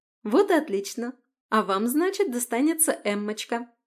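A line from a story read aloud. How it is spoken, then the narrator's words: Joyful summing up. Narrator (Russian): Радостно потирая руки, подвела итог Маргарита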